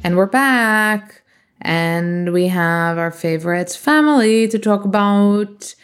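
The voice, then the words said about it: Unidentified put-on accent. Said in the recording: “I don't know what accent I'm doing.”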